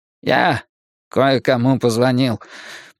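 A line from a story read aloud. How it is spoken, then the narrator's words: Dejected tone. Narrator (Russian): подавленным тоном произнес он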